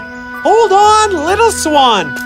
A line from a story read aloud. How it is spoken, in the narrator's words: Peter screamed aloud